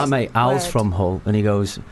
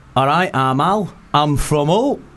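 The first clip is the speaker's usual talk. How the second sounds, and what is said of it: Imitated Hull accent, dropped H. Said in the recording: “A Hull accent... drop the H straight away”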